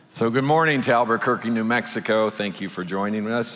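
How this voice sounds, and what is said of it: Low, smooth DJ-like voice. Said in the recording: “Sorry for my voice. It's a little, ... when I go down here, it's very DJ-like. Smooth jazz.”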